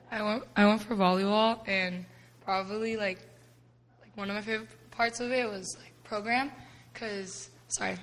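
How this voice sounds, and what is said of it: Hoarse, strained voice. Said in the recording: “my voice is kind of gone because I was yelling”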